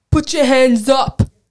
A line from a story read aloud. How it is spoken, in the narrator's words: shouting